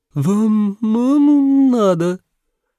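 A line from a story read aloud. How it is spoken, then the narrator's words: Little girl's odd nasal voice. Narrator (Russian): Девчушка странным гнусавым голоском уточнила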